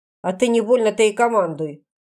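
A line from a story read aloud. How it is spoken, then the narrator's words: Snapping back. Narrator (Russian): огрызнулся на этот окрик Лугвень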